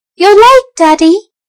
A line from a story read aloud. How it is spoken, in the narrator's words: a boy's voice cried